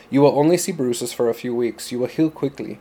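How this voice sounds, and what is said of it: Attempted Afrikaans accent, slipping toward Spanish. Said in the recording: “I have a Spanish accent, but trying to do Afrikaans, I don't know, sometimes I slip into Spanish”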